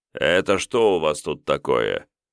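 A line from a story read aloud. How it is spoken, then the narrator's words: Sarcastic inquiry. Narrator (Russian): язвительно осведомился достойнейший рыцарь из Клабхерна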